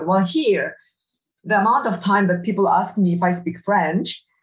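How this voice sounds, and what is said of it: Eastern European accent. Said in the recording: “everyone would recognize my accent as being Eastern European. They might not, you know, exactly say Polish, but they would know Eastern European.”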